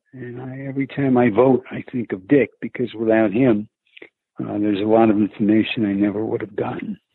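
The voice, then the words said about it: New York accent. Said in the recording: “There's a little bit of a Northeast accent in your voice ... having kind of the thick New York accent”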